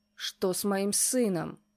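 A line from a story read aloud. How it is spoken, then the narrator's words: Growled. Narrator (Russian): прорычал он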